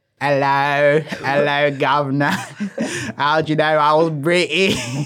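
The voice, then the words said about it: Put-on English accent. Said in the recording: “English accents ... I love your accent.”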